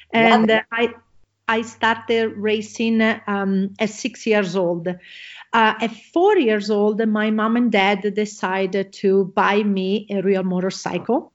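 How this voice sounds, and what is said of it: Italian accent. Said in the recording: “I am originally from Italy. You're probably going to hear my accent”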